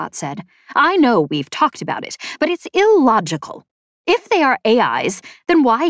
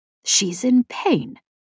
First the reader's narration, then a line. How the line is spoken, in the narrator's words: Embot said softly